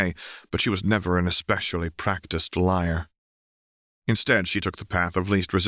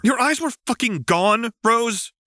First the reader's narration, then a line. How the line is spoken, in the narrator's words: John shouted, sounding uncharacteristically animated